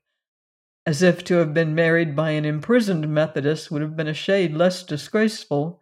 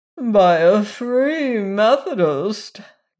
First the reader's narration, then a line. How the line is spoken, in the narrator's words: groaned Mrs